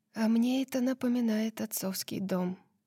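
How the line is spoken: Quiet confession. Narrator (Russian): тихо призналась Лидия

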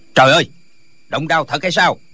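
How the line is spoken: Shouting. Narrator (Vietnamese): la lên

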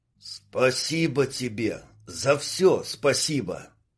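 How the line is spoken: Choked hoarse gratitude. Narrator (Russian): сдавленно прохрипел Дима

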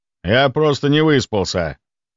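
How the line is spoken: Grumbling mutter. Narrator (Russian): пробурчал Иваныч

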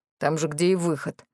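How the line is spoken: Displeased grumble. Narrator (Russian): пробурчал Марис, которого перспектива подставляться из-за чрезмерно активных братьев-огров не радовала

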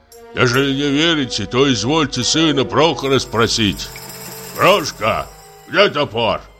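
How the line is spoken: Sudden rough question. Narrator (Russian): Вдруг спросил он грубым голосом

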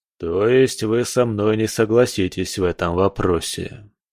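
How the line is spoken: Sighing. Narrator (Russian): вздохнул Котлов

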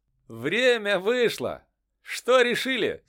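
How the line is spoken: Ringing voice question. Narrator (Russian): спросил воин звонким голосом

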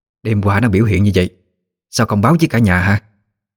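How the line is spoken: Harsh question. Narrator (Vietnamese): bà gay gắt hỏi

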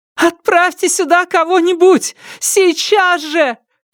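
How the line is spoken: Shouting, interrupting. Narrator (Russian): кричала, перебивая диспетчера

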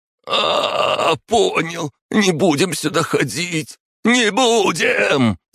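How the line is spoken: Yelling at top of lungs. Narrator (Russian): Закричал он во все горло, не выдержав такой массаж макушки

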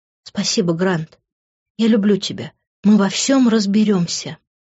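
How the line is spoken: Whisper. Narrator (Russian): прошептала я

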